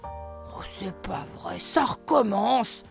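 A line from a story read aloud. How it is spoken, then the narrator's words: Grumbling to himself. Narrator (French): se dit Boubou en bougonnant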